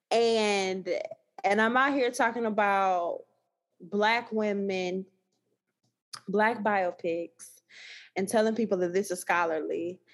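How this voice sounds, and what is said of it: Thick Southern Texas accent. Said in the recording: “I already got this heavy Texas accent... my Louisiana students tell me like, oh, it's really thick... this accent from down south”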